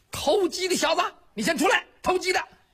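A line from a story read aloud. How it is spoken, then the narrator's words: Shout. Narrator (Chinese): 又有人喊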